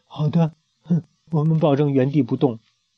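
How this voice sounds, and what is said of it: Quiet, frightened voice. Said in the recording (Chinese): “吓坏了， 小声的说”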